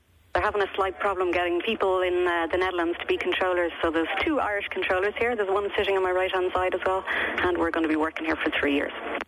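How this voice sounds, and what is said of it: Irish accent. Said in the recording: “your accent sounds a little not Dutch ... an Irish girl like you”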